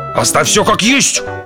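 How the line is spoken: Roaring. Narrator (Russian): взревел док

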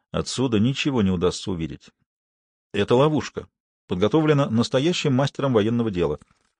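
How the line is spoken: Quiet. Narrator (Russian): Коронели негромко произнес

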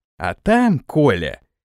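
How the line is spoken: Snide tone. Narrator (Russian): ехидно произнес Самойлов

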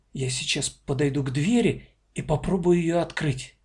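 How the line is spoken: Uncertain whisper. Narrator (Russian): неуверенно прошептала она в ухо старшей дочери

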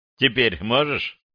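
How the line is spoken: Mocking reply. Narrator (Russian): насмешливо откликнулся Макс

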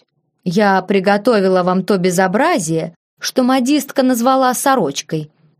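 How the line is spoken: Displeased grumble. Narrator (Russian): недовольно буркнула она

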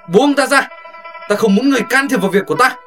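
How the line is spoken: Shouted. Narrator (Vietnamese): Hồ Thiết Hoa hét lên

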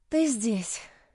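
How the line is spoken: Breathless exhale. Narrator (Russian): выдохнула я

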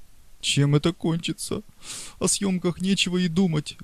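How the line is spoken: Sobbing woman. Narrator (Russian): говорила она, всхлипывая

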